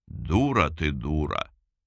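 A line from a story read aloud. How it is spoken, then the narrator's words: Affectionate drawl. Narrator (Russian): ласково протянул Соколов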